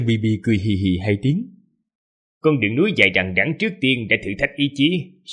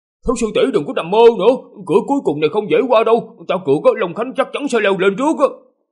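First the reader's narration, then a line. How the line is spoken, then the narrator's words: Startled shout. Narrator (Vietnamese): bất giác dùng mình một cái, hét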